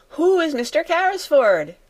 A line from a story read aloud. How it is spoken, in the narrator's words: shouted Jessie